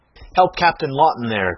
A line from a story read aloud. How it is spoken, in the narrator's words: cried Mason